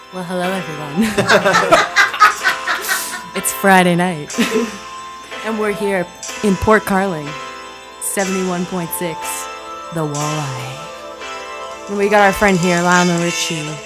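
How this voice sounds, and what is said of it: AM radio announcer voice. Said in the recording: “you have a good AM radio voice ... Good voice”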